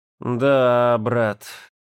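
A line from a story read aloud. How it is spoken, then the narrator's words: Respectful drawl. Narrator (Russian): с уважением протянул он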